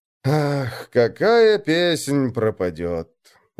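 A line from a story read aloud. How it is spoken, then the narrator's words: Sigh. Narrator (Russian): вздохнул он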